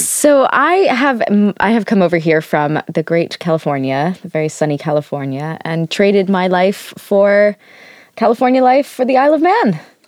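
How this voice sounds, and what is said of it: American accent. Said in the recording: “I can tell from your accent, you may be from further afield.”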